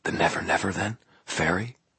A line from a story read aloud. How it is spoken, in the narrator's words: spoke, her voice still hushed, almost reverent